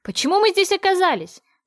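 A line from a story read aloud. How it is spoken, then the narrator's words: Loud but relaxed voice. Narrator (Russian): проговорила громко, но не особенно напрягая голосовые связки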